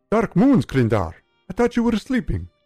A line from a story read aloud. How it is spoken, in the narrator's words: Singe blurted